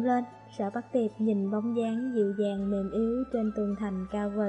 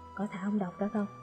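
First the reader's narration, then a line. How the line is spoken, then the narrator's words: Lowered voice. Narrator (Vietnamese): Sở Bắc Tiệp hạ giọng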